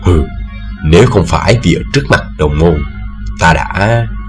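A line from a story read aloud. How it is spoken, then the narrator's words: Old man, lowered voice. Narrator (Vietnamese): Hạ giọng xuống, lão nhân bảo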